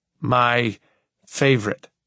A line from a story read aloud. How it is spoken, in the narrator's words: I joke through clenched teeth